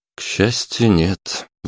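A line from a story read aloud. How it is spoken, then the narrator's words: Sighing. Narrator (Russian): вздохнул лейтенант Карпов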